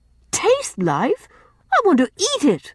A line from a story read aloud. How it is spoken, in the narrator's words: cried Rilla, laughing